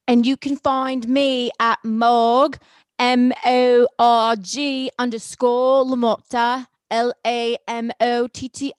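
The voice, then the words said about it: Put-on Cockney accent. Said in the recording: “that's a Cockney accent for those who don't think that I can do one. ... It's a little bit of a Cockney.”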